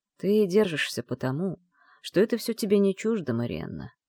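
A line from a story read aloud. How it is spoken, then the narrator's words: Quiet. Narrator (Russian): тихо проговорил Кэррин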